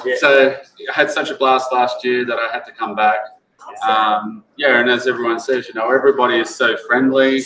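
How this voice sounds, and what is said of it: Australian accent. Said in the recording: “I'm an Aussie. I traveled all the way from Australia ... I thought that accent was fake.”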